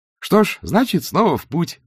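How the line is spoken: Cheerful. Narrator (Russian): бодро сказал два цветок

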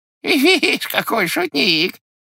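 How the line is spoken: Laughing shout. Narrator (Russian): закричал, смеясь, черт

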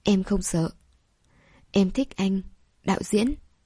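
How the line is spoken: Embarrassed soft reply. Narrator (Vietnamese): mặt dày khẽ đáp

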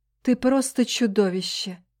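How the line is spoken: Mildly stern. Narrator (Russian): не слишком грозно ответила я

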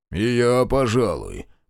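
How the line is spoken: Mutter. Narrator (Russian): пробурчал Каштан

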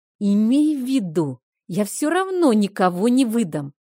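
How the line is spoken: Anguished, through gritted teeth. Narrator (Russian): Физиономия его исказилась мукой, и, зажмурив глаза и сжав зубы, как под пыткой, он процедил

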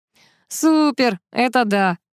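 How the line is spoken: Laughing. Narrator (Russian): рассмеялся Кузьмин

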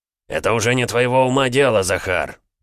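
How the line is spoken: Irritated barking emperor. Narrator (Russian): раздраженно рявкнул император

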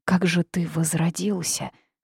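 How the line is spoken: Timid girl's question. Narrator (Russian): робко поинтересовалась девушка

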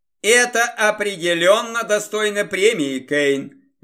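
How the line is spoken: Cheerful shout. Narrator (Russian): весело крикнул Красовский

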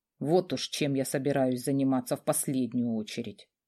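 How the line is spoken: Grumbling mutter. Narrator (Russian): буркнул Радомир

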